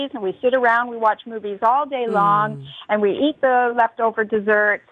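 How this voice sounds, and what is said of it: Canadian accent. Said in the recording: “your wonderful Canadian accent”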